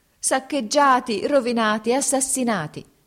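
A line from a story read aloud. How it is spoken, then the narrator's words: Woman shouting. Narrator (Italian): gridò la donna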